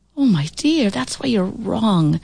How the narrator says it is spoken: said wistfully

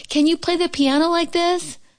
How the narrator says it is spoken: cried Toad

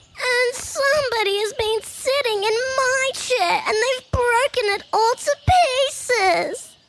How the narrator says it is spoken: he cried in his squeaky baby voice

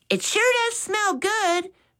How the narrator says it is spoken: Mitch exclaimed

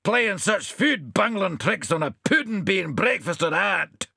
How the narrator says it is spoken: shouted the puddin'

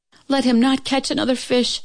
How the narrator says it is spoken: she cried to heaven

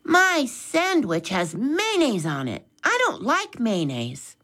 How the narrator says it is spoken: Mitch exclaimed

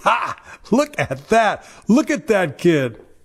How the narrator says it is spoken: His friends laughed hard, and laughed like mockers and scoffers

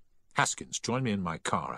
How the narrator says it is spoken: I said

